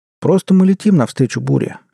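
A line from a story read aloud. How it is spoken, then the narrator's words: Cheerful. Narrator (Russian): весело сказал Эдуард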